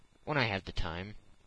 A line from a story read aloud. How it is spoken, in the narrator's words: replied Phileas Fogg quietly